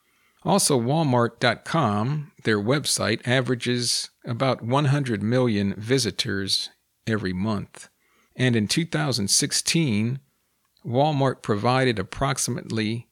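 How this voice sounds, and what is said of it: Scratchy voice from head cold. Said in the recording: “I seem to have a little bit of a head cold ... My voice is a little scratchy.”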